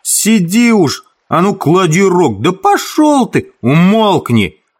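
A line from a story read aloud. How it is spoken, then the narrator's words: Shout. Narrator (Russian): Ральф крикнул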